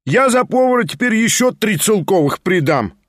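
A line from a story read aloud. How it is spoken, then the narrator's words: Loud and insistent. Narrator (Russian): громко подхватил другой голос, слишком даже громко, громко с настойчивостью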